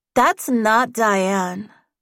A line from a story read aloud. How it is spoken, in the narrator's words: Bridget said, her voice dripping with disappointment